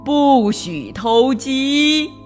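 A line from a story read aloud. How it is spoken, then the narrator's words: Shouting loudly. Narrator (Chinese): 高喊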